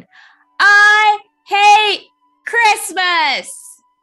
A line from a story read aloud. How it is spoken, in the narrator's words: sucking in as much air as he could, he shouted again as loudly as he could